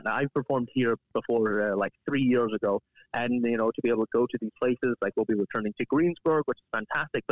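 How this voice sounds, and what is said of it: Scottish accent, strongly rolled R's. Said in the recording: “I have a Scottish accent. So I'm used to hitting R's really, really hard”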